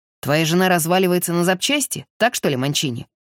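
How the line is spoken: Snorting. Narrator (Russian): хмыкнул Гримальди

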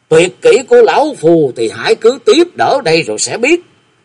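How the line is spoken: Furious loud shout. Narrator (Vietnamese): Lãnh Nam tà thần cả giận liền quát to

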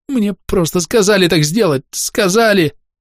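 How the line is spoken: Babbling. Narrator (Russian): лепетал он

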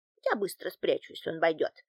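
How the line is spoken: Whispered. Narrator (Russian): прошептала домработница

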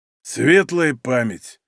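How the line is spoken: Muffled, hollow voice. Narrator (Russian): глухим голосом сказал он

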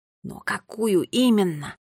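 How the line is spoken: Desperate whisper. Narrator (Russian): прошептал Нелио, и на лице его было написано отчаяние

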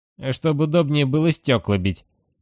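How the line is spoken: Indifferent. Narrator (Russian): безразлично ответил Гиббон

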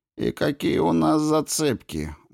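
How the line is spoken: Gloomy question. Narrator (Russian): мрачно спросил Кин

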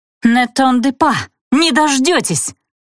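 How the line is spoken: Yelled in French. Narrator (Russian): заорала я по-французски

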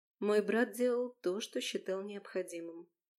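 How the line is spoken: Very calm reply. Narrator (Russian): но очень спокойно отвечала Наала

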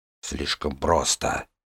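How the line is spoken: Muttered. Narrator (Russian): пробормотал бандит

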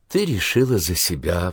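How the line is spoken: Sigh. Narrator (Russian): вздохнула Джилл

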